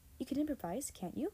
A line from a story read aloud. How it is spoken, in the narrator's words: Miss Slade asked